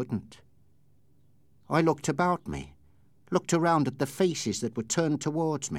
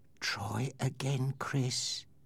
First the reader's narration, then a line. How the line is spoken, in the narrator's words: whispered in my ear